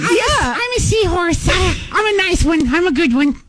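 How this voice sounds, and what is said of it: Tiny seahorse character voice. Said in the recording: “I think he nailed the voice ... do this voice”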